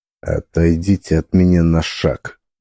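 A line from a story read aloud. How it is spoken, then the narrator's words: Barely audible icy threat. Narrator (Russian): Процедил я едва слышно, но с такой ледяной угрозой в голосе, что она была ощутимее физического толчка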